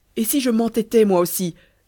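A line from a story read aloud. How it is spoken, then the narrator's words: Exclaimed. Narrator (French): s'écria-t-il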